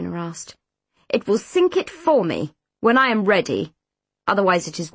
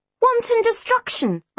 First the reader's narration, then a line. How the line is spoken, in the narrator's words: I spluttered